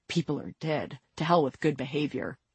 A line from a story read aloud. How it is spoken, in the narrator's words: Vincent muttered, low enough so that their aunt wouldn't hear